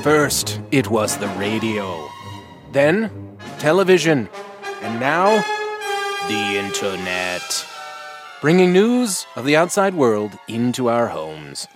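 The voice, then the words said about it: Old newsreel announcer voice. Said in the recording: “My announcer voice. I'm doing an old newsreel.”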